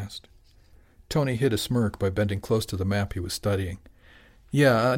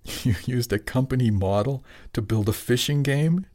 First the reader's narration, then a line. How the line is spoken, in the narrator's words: Jimmy laughed